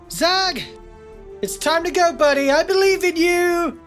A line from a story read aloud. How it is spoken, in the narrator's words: Finn will shout to Zag